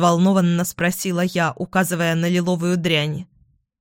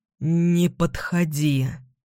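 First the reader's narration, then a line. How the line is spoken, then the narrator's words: Hoarse rasp. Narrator (Russian): Эдвин прохрипел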